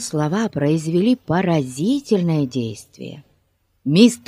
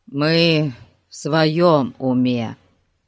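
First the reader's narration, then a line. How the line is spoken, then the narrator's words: Gloomy objection. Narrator (Russian): мрачно возразил Ларри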